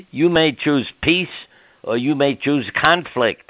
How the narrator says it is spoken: I yelled

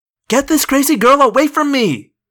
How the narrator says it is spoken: Jeremy Jason cried

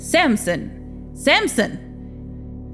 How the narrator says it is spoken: shouted loudly

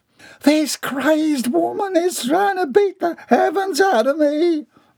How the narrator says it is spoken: Bobby Sue wailed

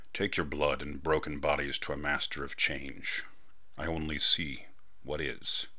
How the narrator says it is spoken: Monday murmured

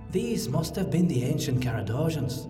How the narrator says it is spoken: Federhel said softly

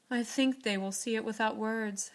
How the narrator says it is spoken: sighed Joe, for now it seemed to her that Beth changed every day

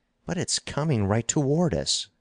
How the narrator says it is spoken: cried Stanton

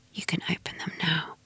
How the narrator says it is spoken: I hear her whisper

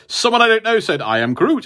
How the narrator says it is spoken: he said

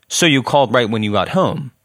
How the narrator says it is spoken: asked

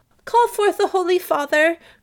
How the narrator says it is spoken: cried Olivia

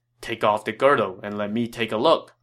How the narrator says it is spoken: Cao Cao said

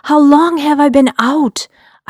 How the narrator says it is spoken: I blurted and rambled these questions flooding from my thoughts

